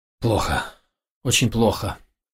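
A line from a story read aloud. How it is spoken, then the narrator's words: Mumbling, heavy sigh. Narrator (Russian): пробормотал ее брат и тяжело вздохнул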